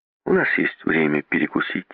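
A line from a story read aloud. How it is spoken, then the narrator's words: Plain. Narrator (Russian): сказал Сомс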